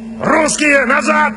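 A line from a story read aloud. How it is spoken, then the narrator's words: Shout. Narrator (Russian): крикнул он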